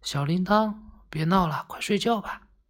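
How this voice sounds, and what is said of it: Soft, quiet hushed voice. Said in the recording (Chinese): “小声地说”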